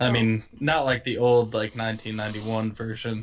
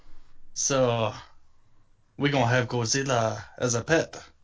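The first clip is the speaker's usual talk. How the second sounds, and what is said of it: Exaggerated put-on accent. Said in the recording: “That is a terrific accent you've got there. Maybe tone it down.”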